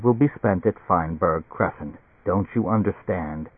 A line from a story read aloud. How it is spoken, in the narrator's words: Barney said quietly